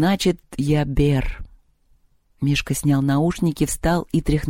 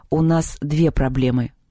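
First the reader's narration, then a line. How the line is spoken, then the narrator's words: Gloomy voice. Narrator (Russian): мрачно сказал Антоха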